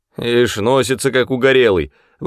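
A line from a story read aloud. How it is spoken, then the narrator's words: Grumbling. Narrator (Russian): ворчала голова Тома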